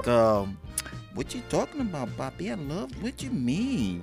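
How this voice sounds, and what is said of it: Put-on Puerto Rican accent. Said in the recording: “with that nice, cute, sexy Puerto Rican accent”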